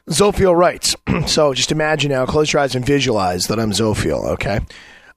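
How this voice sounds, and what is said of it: Rough, strained, worn-out voice. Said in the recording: “Hopefully my voice will keep up ... my voice is a big fat bag of shit right now, and so it's probably going to sound like hell”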